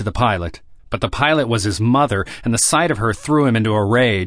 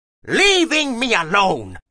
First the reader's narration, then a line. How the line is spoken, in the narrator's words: screamed